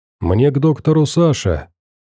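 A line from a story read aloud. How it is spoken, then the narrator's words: Calm, patient young man. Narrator (Russian): спокойно и терпеливо пояснил парень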